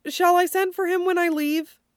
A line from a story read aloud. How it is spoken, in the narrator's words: Dorian laughs, a little high-pitched to his own ears